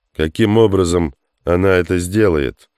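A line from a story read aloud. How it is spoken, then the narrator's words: Plain question. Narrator (Russian): спросил Хук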